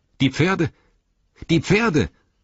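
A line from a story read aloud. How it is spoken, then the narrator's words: Sudden call. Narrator (German): Plötzlich rief Legolas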